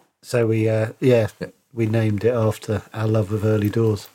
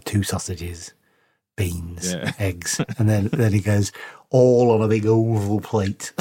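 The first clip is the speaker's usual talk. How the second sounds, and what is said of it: Impression of Eddie from Early Doors. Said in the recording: “It's a good impression. ... It's so good.”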